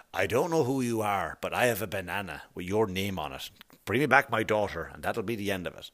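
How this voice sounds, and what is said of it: Bad Liam Neeson impression. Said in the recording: “That was a terrible Liam Neeson impression”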